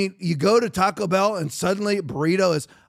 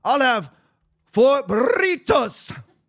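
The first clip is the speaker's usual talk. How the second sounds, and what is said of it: Put-on Mexican accent. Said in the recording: “start using a Mexican accent? ... why are you talking like that?”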